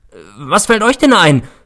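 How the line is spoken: Shouted. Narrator (German): schrie ich sie an

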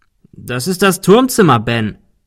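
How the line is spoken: Called. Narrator (German): rief Arthur

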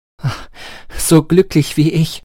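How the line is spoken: Exclaiming. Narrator (German): rief aus

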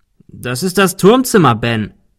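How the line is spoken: Calling. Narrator (German): rief Arthur

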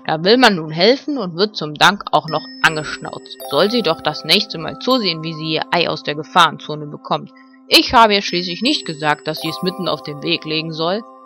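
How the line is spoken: Annoyed growl. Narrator (German): knurrte Ben verärgert

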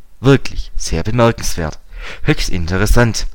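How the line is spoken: Plain. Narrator (German): er sagt

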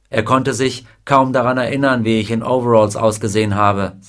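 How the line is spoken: Plain. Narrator (German): sagte er

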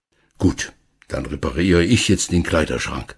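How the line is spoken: Plain. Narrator (German): sagte Herr Schmidt

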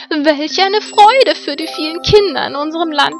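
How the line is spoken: Loud joyful call. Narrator (German): rief sie laut in die Morgenlüfte

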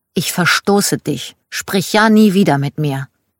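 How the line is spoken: Angry child. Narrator (German): als Kind sehr wütend sagte

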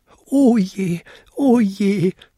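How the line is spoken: Wailing. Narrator (German): jammerte er

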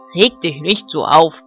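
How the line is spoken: Barking dog voice. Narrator (German): bellte Ben, der Hofhund

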